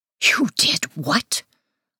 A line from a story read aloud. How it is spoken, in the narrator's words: I hiss